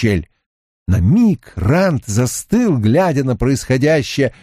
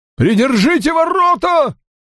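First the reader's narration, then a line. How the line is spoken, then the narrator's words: Unsteady shout from behind wall. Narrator (Russian): выкрикнул за стеной нетвердый голос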